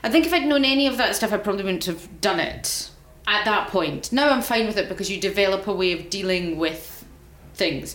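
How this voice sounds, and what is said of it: Scottish accent. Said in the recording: “it's lovely to hear a working class accent on Radio 4 because I'm Scottish. I'm very not working class.”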